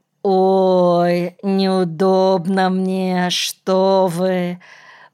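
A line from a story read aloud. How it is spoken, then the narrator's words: Embarrassed drawl. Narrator (Russian): Протянула она со смущением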